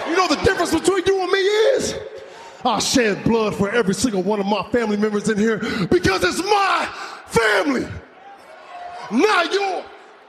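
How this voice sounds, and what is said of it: Angry yelling. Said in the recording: “Why are you yelling at me, huh? Why are you yelling at me?”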